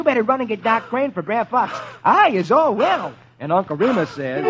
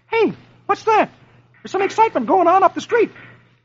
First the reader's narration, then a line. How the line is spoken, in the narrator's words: Dagwood exclaims